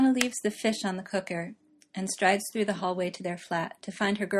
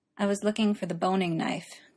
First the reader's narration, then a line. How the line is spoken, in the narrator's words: Gwen says miserably